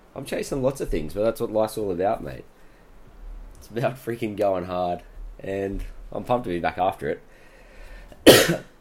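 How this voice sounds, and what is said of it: Sounds a bit sick. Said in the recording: “I'm sorry I sound maybe a bit sick. I feel like I sound a bit sick.”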